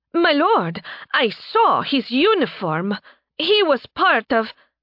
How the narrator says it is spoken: Fire began to say, her tail wagging excitedly

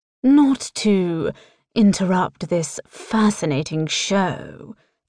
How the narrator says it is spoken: Tristan drawls

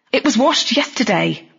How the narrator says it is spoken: snapped

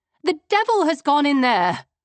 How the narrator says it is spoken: I exclaimed

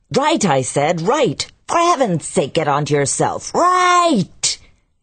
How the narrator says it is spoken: he would lift the last sounds into a vehement roar

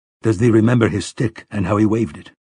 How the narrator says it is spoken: Roland asked her

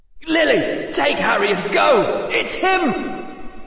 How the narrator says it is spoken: shouted a man's voice

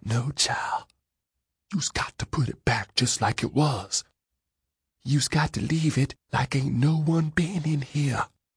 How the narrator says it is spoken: The woman whispered

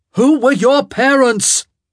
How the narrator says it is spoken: he roared

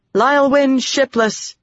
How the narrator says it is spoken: Egwene said loudly

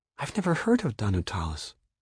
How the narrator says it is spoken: Sophie whispered

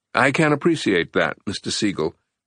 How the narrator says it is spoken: Winston responded evenly

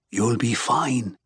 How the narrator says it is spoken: murmurs

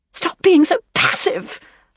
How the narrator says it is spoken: Leslie shrieked

